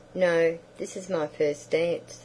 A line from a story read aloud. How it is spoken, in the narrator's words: said she